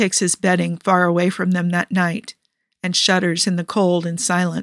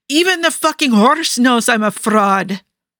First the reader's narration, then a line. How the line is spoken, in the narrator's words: Nikki snaps at them, yelling into the night